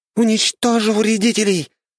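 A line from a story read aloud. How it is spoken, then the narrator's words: Shouted. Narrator (Russian): прокричала Арахна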